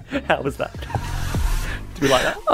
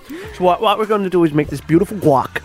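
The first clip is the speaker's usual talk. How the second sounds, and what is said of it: Imitates another person's voice. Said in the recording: “my Anthony impression”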